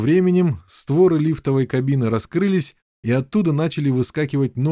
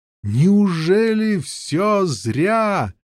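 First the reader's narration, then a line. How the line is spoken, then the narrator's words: Anguished despairing shout. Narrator (Russian): Дикая тоска накатила на Кассия, и он обреченно закричал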